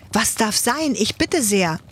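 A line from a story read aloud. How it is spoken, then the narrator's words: Startled cry. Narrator (German): ruft Ladislaus erschrocken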